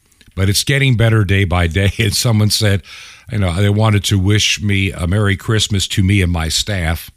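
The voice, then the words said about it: Tired, out-of-breath voice. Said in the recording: “I'm tired a lot. I'm fatigued. I'm out of breath.”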